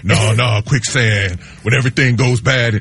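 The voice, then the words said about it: Imitates another person's voice. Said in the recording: “my Keanu Reeves impression”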